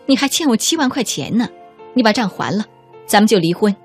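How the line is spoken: Cold sneer. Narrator (Chinese): 女人一声冷笑说

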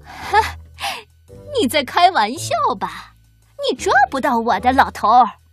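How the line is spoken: Mocking taunt. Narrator (Chinese): 这个小偷嘲笑

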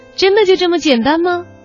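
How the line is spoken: Smiling question. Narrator (Chinese): 他微笑着…问

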